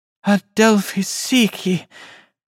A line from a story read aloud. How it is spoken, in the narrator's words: Her voice was light with joy